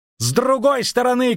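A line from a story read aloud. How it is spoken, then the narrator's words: Shout. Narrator (Russian): крикнул Дайнти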